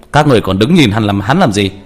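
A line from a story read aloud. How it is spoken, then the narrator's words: Monk barks order. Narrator (Vietnamese): Đại hòa thượng … quát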